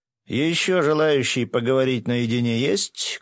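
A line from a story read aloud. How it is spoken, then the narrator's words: Magically amplified loud shout. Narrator (Russian): громко крикнул я, усиливая голос магии ветра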